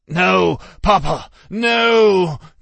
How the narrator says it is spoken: the Dark cried

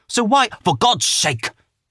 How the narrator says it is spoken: snapped Professor Lovell

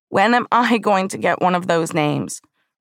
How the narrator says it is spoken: I loudly proclaimed

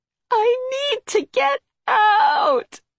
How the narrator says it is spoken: she sobbed

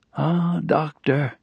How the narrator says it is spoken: he said sadly

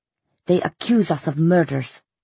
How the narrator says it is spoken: he said angrily

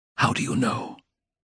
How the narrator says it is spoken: he whispered, hardly able to breathe

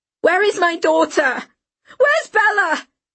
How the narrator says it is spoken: Dawn screamed into his face

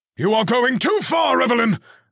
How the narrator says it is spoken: Grandfather Gallows barked

